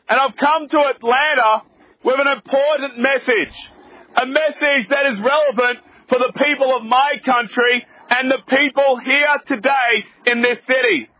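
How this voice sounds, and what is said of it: Australian accent. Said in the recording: “As you can probably tell from my accent, I'm not actually from around here. I'm from way, way, way down south in Australia.”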